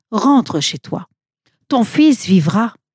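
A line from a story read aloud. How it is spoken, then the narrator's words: Calm. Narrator (French): Jésus répondit calmement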